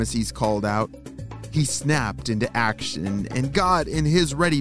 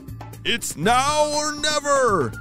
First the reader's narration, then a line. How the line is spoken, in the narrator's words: he shouted